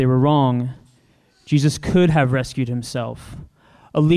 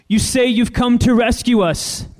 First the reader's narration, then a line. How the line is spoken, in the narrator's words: the people shouted